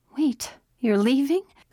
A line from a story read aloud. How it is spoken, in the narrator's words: Her voice wavered